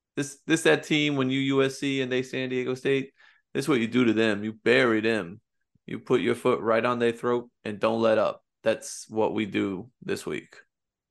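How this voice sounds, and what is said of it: Keyshawn Johnson impression. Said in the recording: “did a great Keyshawn impression.”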